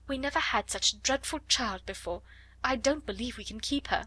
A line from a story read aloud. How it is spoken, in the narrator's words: almost whispered Miss Amelia